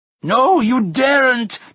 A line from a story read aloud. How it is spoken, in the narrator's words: Tirana cried